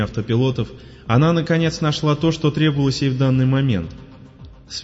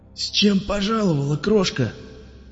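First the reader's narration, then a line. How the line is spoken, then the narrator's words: Hoarse, croaking voice. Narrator (Russian): Раздался из темноты сиплый, каркающий голос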